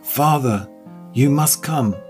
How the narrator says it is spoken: he exclaimed

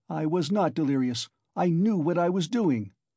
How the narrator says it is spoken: he cried, straining every faculty to penetrate Porfiry's game

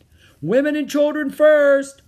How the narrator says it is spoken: someone shouted

